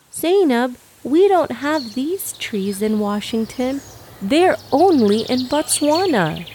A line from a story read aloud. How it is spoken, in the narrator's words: Humaira exclaimed to her sister